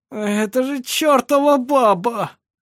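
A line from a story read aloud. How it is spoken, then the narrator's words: Groaning. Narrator (Russian): простонал он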